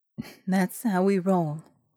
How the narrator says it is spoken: she sighed

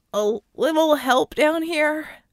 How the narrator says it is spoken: Acrobat groaning as he struggled

